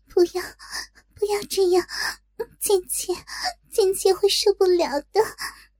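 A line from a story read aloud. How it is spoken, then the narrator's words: Soft breathless panting. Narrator (Chinese): 不由娇喘道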